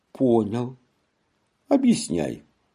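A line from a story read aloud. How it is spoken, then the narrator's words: Quiet answer. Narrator (Russian): я отвечал тихо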